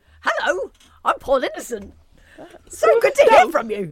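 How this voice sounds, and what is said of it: Impression of Paul Innocent. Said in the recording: “can do a really good impression of you. ... It's amazing. It's very, very good. ... Surprisingly good.”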